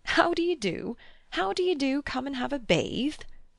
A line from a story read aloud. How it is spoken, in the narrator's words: he chuckled